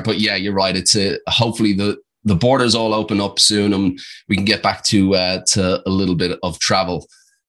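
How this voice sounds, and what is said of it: Irish accent with Australian twang. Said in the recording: “I have an Australian twang, but I'm actually Irish, so I've got this kind of cocktail going on.”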